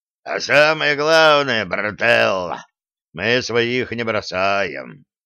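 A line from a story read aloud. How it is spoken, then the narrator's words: Convict's good-natured rumble. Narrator (Russian): добродушно прогудел зэка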